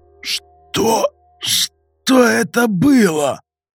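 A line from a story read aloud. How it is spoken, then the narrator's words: Hoarse rasp. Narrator (Russian): Прохрипел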